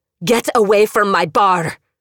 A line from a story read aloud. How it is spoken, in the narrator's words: Jordan shouted